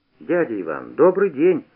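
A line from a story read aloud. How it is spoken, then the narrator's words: Cheerful. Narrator (Russian): весело сказал я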